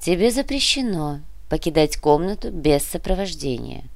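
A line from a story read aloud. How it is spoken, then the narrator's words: Said softly. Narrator (Russian): мягко произнесла Чио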